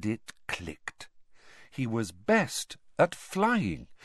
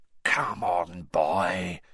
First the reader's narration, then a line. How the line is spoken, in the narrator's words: whispered Moody